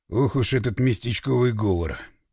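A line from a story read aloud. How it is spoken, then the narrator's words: Grumbling. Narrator (Russian): проворчал Пашка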